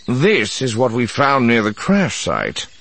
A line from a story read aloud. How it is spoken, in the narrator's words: said grimly